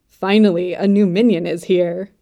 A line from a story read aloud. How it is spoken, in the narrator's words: he cackled